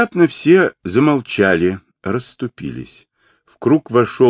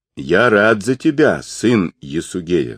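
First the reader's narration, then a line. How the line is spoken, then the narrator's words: Plain. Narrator (Russian): сказал он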